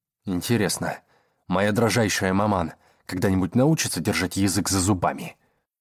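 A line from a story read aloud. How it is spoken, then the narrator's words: Grumbling. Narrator (Russian): Проворчал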